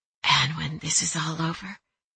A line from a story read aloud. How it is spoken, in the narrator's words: whispered